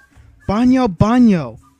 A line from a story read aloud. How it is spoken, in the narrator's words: Anakin shouted